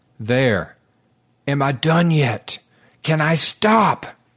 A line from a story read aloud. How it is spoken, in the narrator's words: Rhys cried out to no one in particular